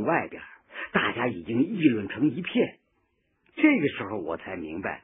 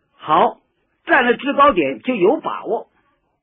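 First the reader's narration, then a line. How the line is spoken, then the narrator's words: Raised voice. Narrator (Chinese): 周恩来提高了声音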